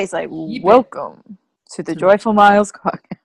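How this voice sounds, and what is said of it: Exaggerated deep voice. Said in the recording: “You have to do a deep voice.”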